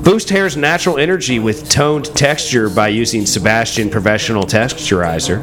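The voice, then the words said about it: Professional announcer voice. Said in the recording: “I'm going to read it in my, like, professional announcer voice.”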